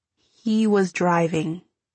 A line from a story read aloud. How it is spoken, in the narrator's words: I said slowly